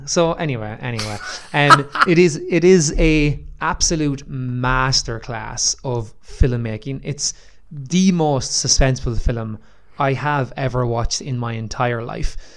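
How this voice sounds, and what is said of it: Own accent with distinctive TH sounds. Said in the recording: “laugh at my accent with my old THs”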